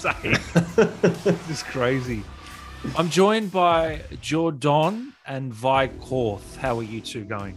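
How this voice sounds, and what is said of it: Put-on South African accent. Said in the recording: “he's gone a bit South African there”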